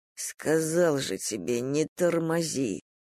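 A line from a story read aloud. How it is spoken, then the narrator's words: Annoyed and tired. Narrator (Russian): досадливо и устало сказал Полуянов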